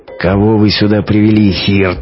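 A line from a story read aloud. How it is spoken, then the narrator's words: Menacing growl. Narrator (Russian): грозно прорычал он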